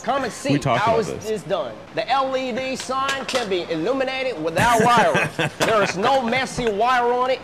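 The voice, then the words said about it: Southern drawl accent. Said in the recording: “This is such a confusing accent to me ... Southern ... southern draw”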